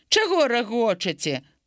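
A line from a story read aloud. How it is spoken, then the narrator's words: Angry boy's shout. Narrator (Belarusian): Хлопчык злосна зірнуў на іх і крыкнуўшы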